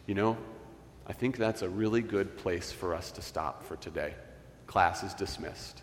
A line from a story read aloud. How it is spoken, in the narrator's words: Dallas quietly and gently said